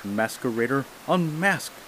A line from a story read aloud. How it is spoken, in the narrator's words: he cried